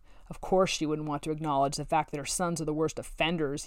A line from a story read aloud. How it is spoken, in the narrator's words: he growled